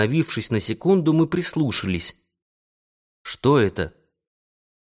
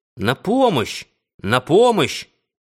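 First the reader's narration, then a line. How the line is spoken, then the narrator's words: Strained shout. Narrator (Russian): Консель собрался с силами и крикнул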